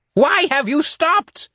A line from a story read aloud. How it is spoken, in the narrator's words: Indrot roared